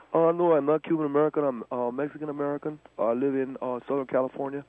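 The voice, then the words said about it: Noticeable accent. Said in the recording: “I detect an accent.”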